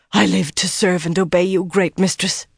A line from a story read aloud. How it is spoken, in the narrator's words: Alviarin panted between kisses